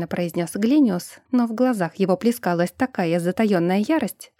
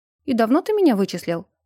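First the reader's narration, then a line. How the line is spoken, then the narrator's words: Calm question. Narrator (Russian): На этот раз уже спокойно спросил тот, кого я ранее окрестила дядей Иба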